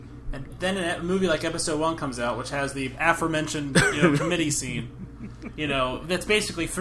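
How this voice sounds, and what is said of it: Usual voice. Nothing is said of it.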